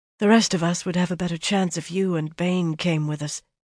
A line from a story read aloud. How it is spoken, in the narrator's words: she said in a low voice